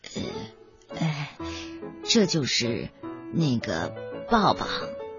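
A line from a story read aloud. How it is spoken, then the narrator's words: Quiet, embarrassed. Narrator (Chinese): 倪先生红着脸，小声的说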